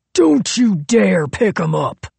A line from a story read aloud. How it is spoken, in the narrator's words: Royal roared